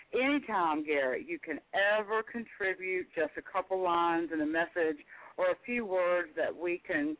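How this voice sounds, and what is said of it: Southern American accent. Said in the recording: “as a Southern girl, in my Southern accent”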